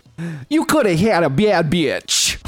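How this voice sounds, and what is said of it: Imitates singer, sounding like Minnesotan woman. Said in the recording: “Is that your Lizzo impression? ... that's pretty good. ... That's my Lizzo if she were a 40-year-old white lady from Minnesota.”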